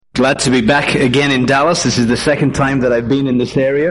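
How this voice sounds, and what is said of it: Mixed Northern English accent. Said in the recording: “I'm actually from England ... from the north of England, a place called Leeds ... worked in Ireland for 8 years ... living in Georgia ... my accent is somewhat of a mongrel accent”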